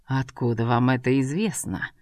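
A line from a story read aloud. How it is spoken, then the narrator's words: Suspiciously quiet. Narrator (Russian): подозрительно тихо произнес Ибрагим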